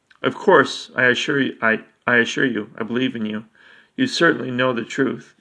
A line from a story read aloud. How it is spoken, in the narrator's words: Charon stammered